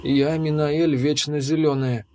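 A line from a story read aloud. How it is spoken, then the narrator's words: Weary. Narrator (Russian): устало ответила девушка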